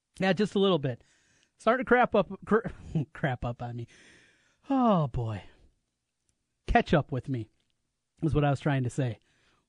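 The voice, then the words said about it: Congested voice from a cold. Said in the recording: “Can you tell I have a cold?”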